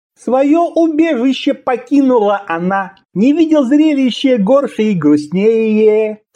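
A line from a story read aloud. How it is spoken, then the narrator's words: Mournful singsong. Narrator (Russian): Со скорбной миной нараспев произнес Шишелам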